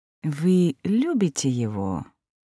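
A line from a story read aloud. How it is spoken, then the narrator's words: Deceptively soft, unruffled. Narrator (Russian): обманчиво мягко уточнил, не задетый моей вспышкой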